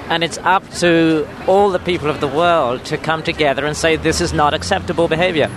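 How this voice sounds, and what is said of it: British accent. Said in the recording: “I noticed that you have an accent. You appear to be British.”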